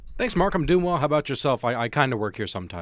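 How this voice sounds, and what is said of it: Great radio voice. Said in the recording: “he's got a great radio voice”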